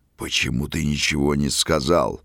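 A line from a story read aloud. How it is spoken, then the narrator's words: Growling. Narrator (Russian): рычал князь на итальянца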